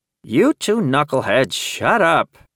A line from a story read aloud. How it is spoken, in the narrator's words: Frankie growled